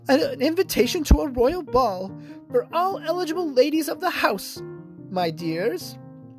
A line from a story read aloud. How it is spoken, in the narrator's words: She gasped